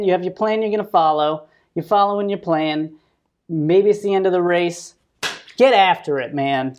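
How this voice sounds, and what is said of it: Fired-up, coach-like pep talk. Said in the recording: “You sound like a coach when you said that. ... I get a little fired up.”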